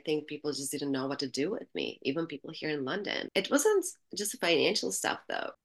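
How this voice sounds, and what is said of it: Albanian accent in English. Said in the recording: “A tiny Albanian girl, okay, you could still hear my accent”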